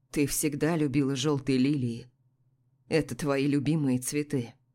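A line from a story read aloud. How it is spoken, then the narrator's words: Calm even tone. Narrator (Russian): спокойным ровным тоном ответил Илья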